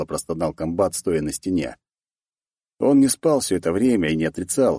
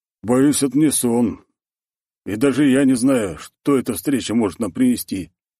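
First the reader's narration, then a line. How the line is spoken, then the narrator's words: Tired reply. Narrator (Russian): не менее устало ответил прапор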